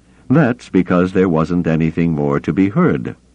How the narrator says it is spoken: Thrawn said evenly

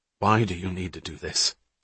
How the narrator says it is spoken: Hatch asked quietly

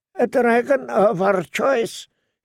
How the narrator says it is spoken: he said in a thin, hard voice

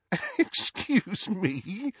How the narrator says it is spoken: said Hermione, giggling

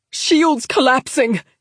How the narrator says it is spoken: CR Adar shouted over the noise

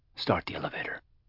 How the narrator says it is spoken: he said quietly

